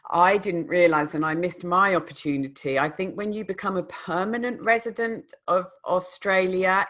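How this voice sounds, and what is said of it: Non-Australian accent. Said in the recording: “as you can tell from my accent, I didn't grow up in Australia”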